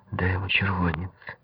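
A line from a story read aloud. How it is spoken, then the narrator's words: Whispered command. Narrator (Russian): шепотом приказала Наташа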